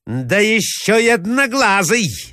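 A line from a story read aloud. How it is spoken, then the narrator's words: Shouting. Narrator (Russian): закричала Марья Александровна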